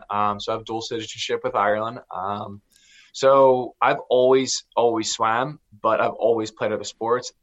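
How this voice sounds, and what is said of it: American accent. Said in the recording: “my accent, I have a U.S. accent.”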